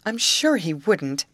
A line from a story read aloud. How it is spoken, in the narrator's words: declared Grace eagerly